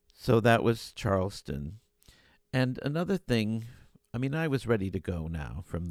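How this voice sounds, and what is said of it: Usual voice. Nothing is said of it.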